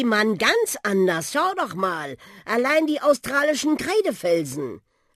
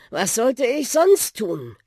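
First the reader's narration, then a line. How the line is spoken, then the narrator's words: Sighing. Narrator (German): seufzte der Buschi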